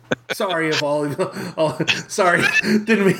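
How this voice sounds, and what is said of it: Usual voice. Nothing is said of it.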